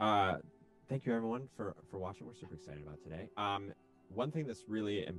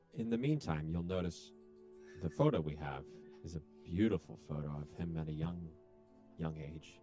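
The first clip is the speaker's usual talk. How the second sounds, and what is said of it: Creepy voice. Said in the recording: “stop using such a creepy voice”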